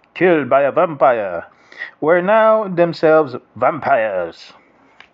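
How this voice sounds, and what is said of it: Put-on accent on the word vampire. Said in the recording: “I forgot to do the accent”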